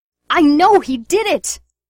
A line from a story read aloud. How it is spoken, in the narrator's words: she shrieked